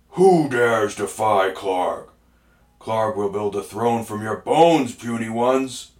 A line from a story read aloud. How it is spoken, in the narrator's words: The bugbear leaped up roaring